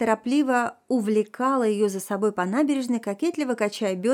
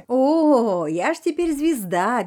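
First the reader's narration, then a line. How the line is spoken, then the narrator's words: Carefree loud laughter. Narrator (Russian): беззаботно расхохоталась Танечка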